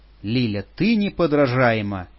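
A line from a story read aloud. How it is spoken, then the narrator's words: Exclaimed. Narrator (Russian): воскликнул Алан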